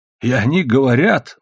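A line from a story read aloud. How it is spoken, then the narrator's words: Exclaimed. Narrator (Russian): воскликнул он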